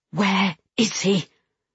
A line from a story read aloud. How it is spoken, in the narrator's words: I hissed at Sean